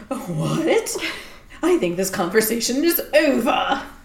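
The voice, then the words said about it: Imitates a character's accent. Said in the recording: “That was exactly his accent. Nice work.”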